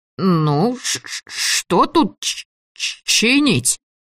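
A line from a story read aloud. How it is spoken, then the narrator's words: Stuttering. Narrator (Russian): Заикался он тоже весьма натуралистично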